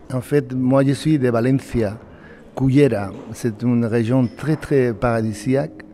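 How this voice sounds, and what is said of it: Spanish accent in French. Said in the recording (French): “Vous êtes espagnol, on reconnaît à votre accent.”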